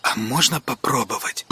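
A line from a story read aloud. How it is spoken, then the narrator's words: Boy's near whisper. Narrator (Russian): почти шепотом попросил мальчик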